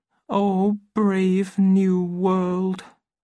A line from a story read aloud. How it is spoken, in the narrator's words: said sadly to himself